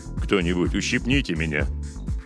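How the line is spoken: Grumble from behind. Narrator (Russian): буркнул позади капитан Робертс

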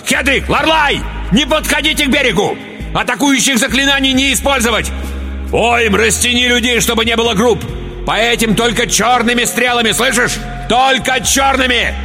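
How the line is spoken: Sudden urgent yell. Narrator (Russian): И вдруг, сообразив, что нужно действовать без промедления, заорал

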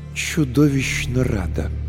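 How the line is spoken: Through gritted teeth. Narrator (Russian): Линза процедила

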